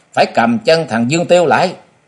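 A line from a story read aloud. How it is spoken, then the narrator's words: Clamoring crowd shouting. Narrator (Vietnamese): nhiều người nhao nhao lên rồi to tiếng quát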